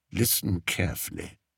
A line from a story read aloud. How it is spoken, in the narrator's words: murmured Spittleworth